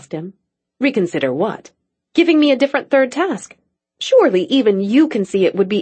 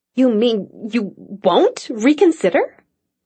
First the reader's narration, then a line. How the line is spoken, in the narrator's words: Cassie sputtered